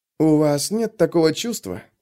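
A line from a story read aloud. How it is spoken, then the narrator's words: Mumbling. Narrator (Russian): пробормотал хлыст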